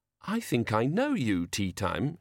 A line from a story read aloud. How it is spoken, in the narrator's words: she said, as sweetly as she could, for Banjo's sake